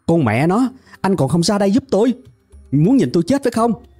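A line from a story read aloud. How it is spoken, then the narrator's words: Shouting. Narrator (Vietnamese): hét lên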